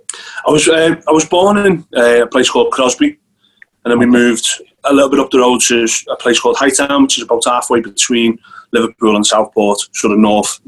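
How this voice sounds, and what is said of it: Scouse (Liverpool) accent. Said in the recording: “I think you can probably tell from my accent that I'm not from around here... that Scouse accent”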